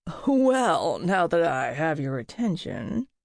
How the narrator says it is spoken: Clay chuckled

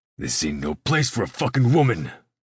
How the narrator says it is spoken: Lox barks, his face turning bright red

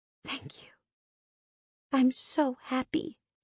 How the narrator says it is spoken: whispered, pretending to be so overcome with emotion I couldn't get the words out

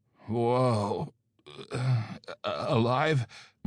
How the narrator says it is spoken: Mark croaked

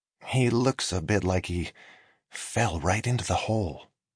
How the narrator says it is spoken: Dwight whispered to Carol

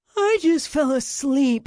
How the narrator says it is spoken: Leon moaned

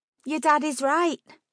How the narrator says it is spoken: said cheerfully

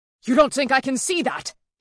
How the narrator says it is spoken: He shouted back at his first mate

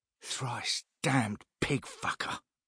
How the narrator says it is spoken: Chell spat

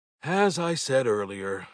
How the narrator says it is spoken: I sighed

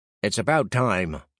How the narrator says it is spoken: grumbled the first man

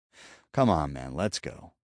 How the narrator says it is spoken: said, and chuckled

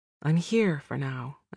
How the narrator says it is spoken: I said

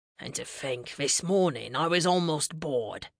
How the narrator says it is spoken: Mads muttered

